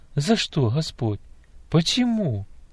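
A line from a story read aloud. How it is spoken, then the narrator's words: Desperate whisper. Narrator (Russian): в отчаянии шептала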